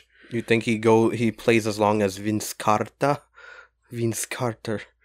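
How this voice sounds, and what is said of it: Funny put-on foreign accent. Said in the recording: “What is that accent? ... I just want to say some names funny today ... It's like a mix between French and Asian ... That just sounded like fucking like Dracula ... like a some kind of like Hispanic”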